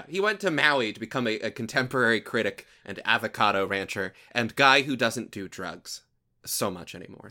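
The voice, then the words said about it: Southern American accent. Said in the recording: “I'm slipping into my usual southern accent that I try to hide from people”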